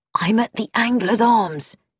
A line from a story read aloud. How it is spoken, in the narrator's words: whispered